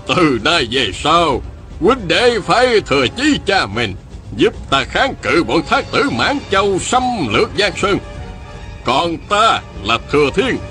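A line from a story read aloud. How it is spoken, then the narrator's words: Smiling. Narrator (Vietnamese): Ông mỉm cười nói với Viên Thừa Chí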